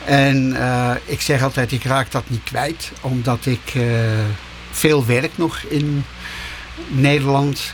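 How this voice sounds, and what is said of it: Strong Netherlands Dutch accent, Utrecht area. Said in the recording (Dutch): “een verschrikkelijk Nederlands accent. ... dat ik uit Nederland kom, ... dat ik uit de buurt van Utrecht kom.”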